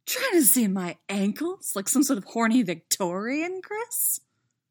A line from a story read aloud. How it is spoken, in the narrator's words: She laughs